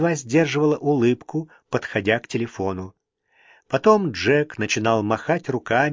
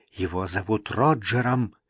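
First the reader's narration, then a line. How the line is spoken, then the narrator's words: Mother hissing. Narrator (Russian): Мама шипела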